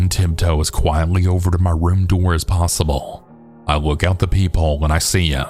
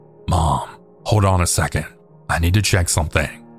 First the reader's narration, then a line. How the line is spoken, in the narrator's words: whispered